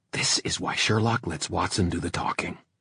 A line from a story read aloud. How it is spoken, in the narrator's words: Kit said to him in a hissing whisper